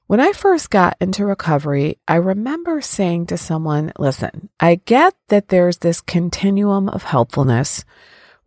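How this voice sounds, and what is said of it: Scratchy, deeper than normal voice. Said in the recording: “I have a cold. I'm sorry my voice is a little bit scratchy and deeper than normal”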